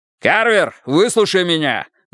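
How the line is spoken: Yell. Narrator (Russian): заорал Страйк

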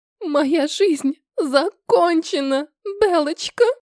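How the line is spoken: Moaning through sobs. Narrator (Russian): простонала сквозь всхлипы

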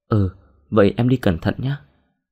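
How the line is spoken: Smiling. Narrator (Vietnamese): Đồng mỉm cười

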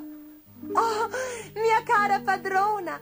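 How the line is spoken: Shouting. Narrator (Italian): gridò Sutica

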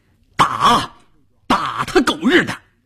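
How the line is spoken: Roaring. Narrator (Chinese): 在关山林的吼叫声中

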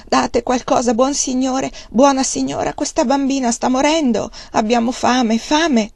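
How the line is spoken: Forceful begging cry. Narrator (Italian): mendicando esclamava con forza

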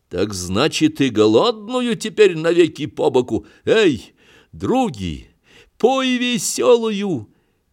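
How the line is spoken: Joyful shout. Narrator (Russian): Клим радостно кричал

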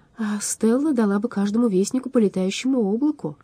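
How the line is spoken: Sigh. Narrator (Russian): вздохнул Алмарон

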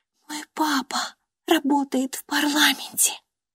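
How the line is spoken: Smiling confidential whisper. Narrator (Russian): она расплылась в улыбке и доверительно прошептала

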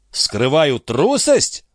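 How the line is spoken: Exclaiming. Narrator (Russian): воскликнул он

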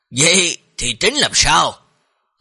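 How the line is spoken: Smiling. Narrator (Vietnamese): Tông chủ mỉm cười nói

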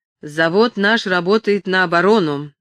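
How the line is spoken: Imposing announcement. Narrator (Russian): объявил он, наконец, внушительным тоном

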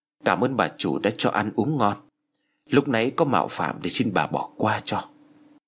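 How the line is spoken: Profuse, eager thanks. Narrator (Vietnamese): Lý cảm ơn rối rít

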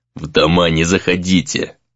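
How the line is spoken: Angry hiss. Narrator (Russian): злобно прошипел Яруда

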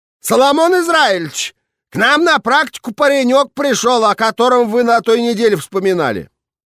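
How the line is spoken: Loud shout. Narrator (Russian): громко крикнула

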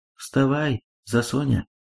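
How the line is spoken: Tender. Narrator (Russian): Русский богатырь нежно сказал

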